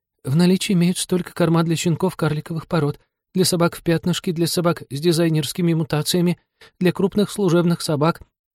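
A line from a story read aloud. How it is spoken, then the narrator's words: Frightened babbling. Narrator (Russian): Та опять обесцветилась и залепетала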